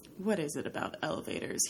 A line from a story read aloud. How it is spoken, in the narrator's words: He mutters